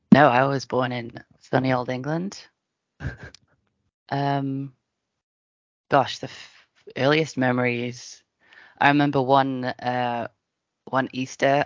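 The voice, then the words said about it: English accent. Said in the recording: “you have a strange accent. You were not born here.”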